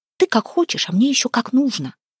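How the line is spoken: Angry whisper. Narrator (Russian): сердито прошептала Настасея

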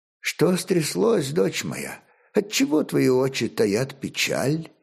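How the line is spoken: Quiet, sympathetic pastor. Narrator (Russian): негромко и участливо спросил пастор

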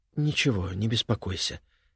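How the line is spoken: Quiet. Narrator (Russian): тихо ответил Охаси

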